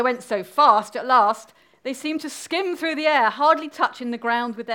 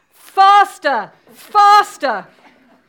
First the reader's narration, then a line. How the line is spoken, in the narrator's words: cried the Queen